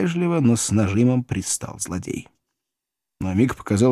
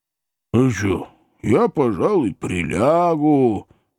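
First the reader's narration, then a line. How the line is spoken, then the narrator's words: Tired, booming drone. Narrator (Russian): устало прогудел Храповицкий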